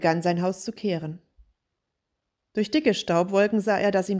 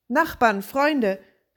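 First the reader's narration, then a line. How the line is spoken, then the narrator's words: Call out. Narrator (German): rief er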